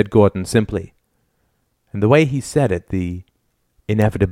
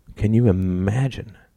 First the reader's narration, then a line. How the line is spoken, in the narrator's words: Gordon murmured